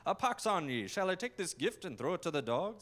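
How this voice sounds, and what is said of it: Bad old-fashioned Scrooge-like accent. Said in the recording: “kind of like Ebenezer Scrooge ... my accent's bad”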